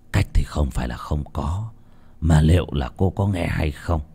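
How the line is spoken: Hesitant, deliberating. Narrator (Vietnamese): Tên thầy tà ra chiều suy nghĩ đắn đo một lúc rồi nói

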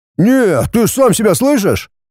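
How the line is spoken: Ironic exclamation. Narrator (Russian): иронически воскликнул Виктор

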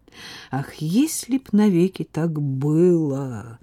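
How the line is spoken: Sung in bass. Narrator (Russian): Басом пропел

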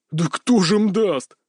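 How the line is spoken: Laughing loudly. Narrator (Russian): расхохотался он

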